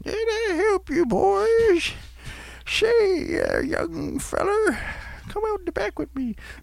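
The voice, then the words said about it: Impression of an old man's voice. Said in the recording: “That's a good impression.”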